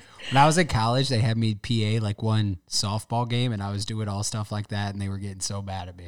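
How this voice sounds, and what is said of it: Usual voice. Nothing is said of it.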